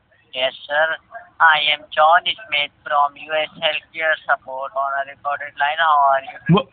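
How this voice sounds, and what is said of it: Heavy foreign accent. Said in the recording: “What country are you from? Because your accent is horrible.”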